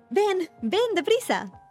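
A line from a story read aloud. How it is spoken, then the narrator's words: Shouted. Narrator (Spanish): gritó en la ventana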